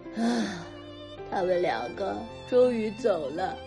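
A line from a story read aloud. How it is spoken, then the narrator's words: Weary sigh. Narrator (Chinese): 道哥倒在沙发上，叹了一口气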